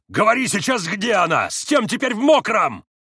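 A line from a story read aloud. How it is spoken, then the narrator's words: Screaming. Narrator (Russian): завопил он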